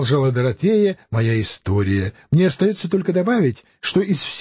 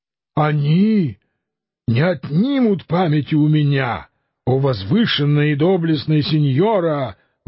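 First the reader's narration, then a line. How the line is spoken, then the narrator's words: Exclamation. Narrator (Russian): воскликнул Дон Кихот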